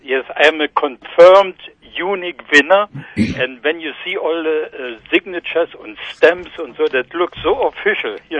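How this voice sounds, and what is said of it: German accent. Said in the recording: “Do I detect an accent? ... No, I am a German.”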